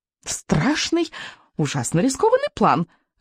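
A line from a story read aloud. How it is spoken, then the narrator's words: Joyful creature announcing. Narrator (Russian): радостно возвестил зигзагерастик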